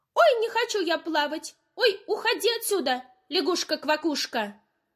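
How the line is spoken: Shouted. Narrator (Russian): крикнула Ойка

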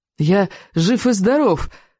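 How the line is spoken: Joyful proclamation. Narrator (Russian): радостно провозгласил он

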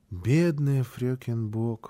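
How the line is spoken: Child's sigh. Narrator (Russian): вздохнул малыш

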